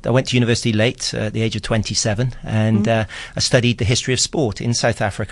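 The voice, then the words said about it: British accent. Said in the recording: “I feel more South African than I do British, despite ... This accent, actually.”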